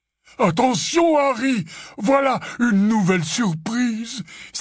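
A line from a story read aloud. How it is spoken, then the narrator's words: Exclaimed. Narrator (French): s'écria Hagrid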